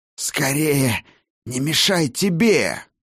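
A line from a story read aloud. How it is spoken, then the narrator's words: Hissed. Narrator (Russian): прошипел владыка солнечного света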